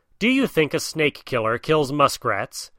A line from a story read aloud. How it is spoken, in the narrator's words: asked Rikki Tikki scornfully